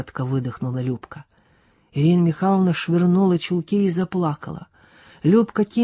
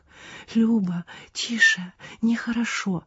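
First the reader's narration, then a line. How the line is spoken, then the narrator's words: Sobbing whisper. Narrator (Russian): шептала всхлипывая Ирина Михайловна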